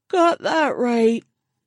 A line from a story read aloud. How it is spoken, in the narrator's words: Crocker said with a yawn